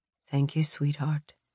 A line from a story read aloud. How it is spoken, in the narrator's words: he softly tells her